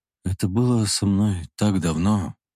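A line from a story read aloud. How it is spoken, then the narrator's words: Quiet. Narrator (Russian): тихо сказал Михаил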